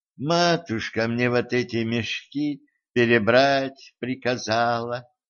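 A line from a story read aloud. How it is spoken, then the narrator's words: Sigh. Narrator (Russian): вздохнула Золушка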